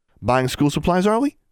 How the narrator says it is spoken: said brightly

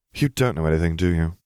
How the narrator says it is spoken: He sighed

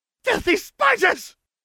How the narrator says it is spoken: Umbridge screeched

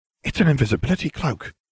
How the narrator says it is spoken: Ron breathed, a look of awe on his face

